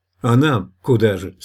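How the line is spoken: Angry question. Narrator (Russian): спросил он зло

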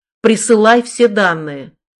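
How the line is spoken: Barked. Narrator (Russian): рявкнул я

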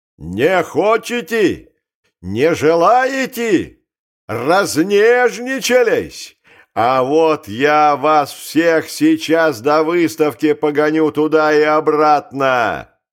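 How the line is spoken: Furious, breaking shout. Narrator (Russian): позеленевший от злобы, он кричал обрывающимся голосом

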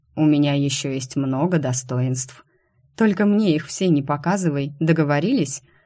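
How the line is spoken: Laughing. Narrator (Russian): Я, смеясь, отреклась

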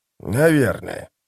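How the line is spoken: Grumbling former priest. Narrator (Russian): проворчал бывший жрец

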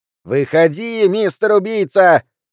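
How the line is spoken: Shrieking again. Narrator (Russian): вновь завопила

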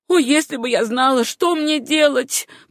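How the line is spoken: Woman's groan. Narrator (Russian): простонала его жена

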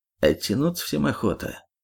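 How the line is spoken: Muffled reply from under hood. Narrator (Russian): глухо отозвался из-под капот второй

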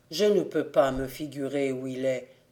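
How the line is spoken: Sad. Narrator (French): dit-il tristement

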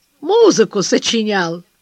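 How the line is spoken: Sleepy, mocking. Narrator (Russian): с просонок насмешливо добавляет

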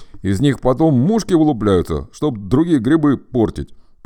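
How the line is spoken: Bear cub grumbling. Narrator (Russian): проворчал медвежонок

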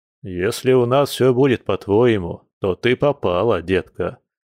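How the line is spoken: Grim smirk. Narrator (Russian): мрачно усмехнулся Борис

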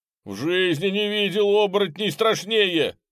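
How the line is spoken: Shouted. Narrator (Russian): крикнул Кас

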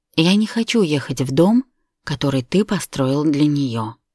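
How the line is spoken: Calm. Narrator (Russian): сказала спокойно

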